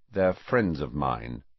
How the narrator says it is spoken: said Harry coldly

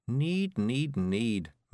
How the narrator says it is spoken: murmured Miss Level

